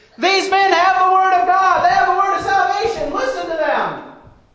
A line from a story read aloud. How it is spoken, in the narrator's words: this demon is making this girl that it's possessed follow behind Paul and his evangelism partner Silas, screaming